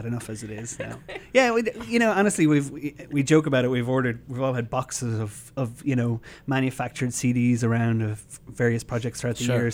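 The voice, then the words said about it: Irish accent. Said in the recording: “Not originally from here, judging by the accent. ... No, I'm from Ireland, yeah.”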